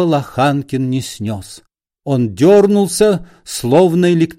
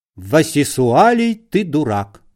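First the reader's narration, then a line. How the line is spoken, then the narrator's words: Calm wife's reply. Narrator (Russian): Спокойно ответила жена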